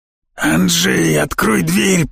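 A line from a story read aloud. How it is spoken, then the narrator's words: Growling. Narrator (Russian): прорычал мне в спину Корней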